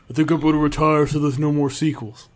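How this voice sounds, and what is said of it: Imitates another person's voice. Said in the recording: “spot on Eddie Murphy impression ... it was my Vin impression ... I thought he was in the room”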